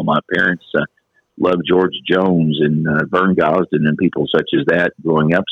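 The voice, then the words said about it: Smooth radio-style speaking voice. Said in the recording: “you've got a nice radio voice”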